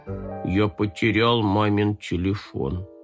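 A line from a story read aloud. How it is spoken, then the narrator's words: Sad confession. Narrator (Russian): Оператор печально признался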